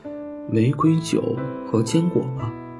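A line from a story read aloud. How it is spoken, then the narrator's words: Smiling. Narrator (Chinese): 小柴犬笑着说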